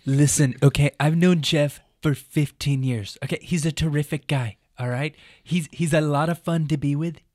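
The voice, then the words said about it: Imitates another person's voice. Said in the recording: “do that in your voice. ... Do the better ... Trump.”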